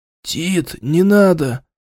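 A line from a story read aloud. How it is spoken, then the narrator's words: Quiet pleading. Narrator (Russian): Тихо попросил укушенный или ужаленный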